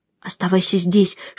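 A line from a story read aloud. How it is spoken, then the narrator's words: Whisper. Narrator (Russian): шепнула я Нико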